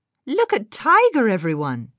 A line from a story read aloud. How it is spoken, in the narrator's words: she exclaimed